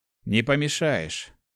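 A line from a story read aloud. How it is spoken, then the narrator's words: Dry reply. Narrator (Russian): сухо ответил Март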